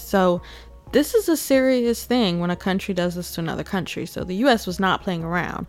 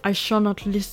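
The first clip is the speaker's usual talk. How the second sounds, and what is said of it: Put-on Russian accent. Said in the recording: “let me not do no Russian accent. I'm struggling.”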